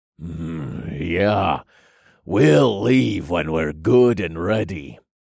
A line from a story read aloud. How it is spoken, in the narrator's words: another man grumbled